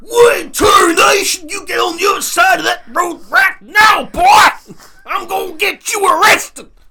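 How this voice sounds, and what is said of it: Angry Texan accent impression. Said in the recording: “That was my impression of an angry Texan.”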